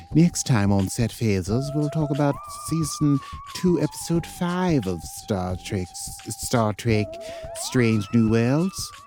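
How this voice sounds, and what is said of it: Good imitation of posh royal accent. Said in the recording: “Is that close to the Windsor accent? I've been working on it. ... You are talking like the Queen ... You're doing a good Queenie.”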